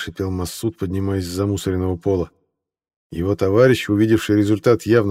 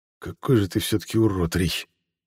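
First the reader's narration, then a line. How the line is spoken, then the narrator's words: Quiet but angry. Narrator (Russian): тихо, но не менее зло высказался Волынин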